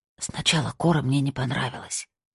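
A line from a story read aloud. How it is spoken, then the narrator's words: Whisper. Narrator (Russian): прошептала она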